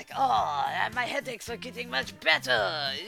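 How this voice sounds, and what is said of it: Exaggerated comic French accent. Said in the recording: “he has this accent that's like the Frenchman from Monty Python, Holy Grail”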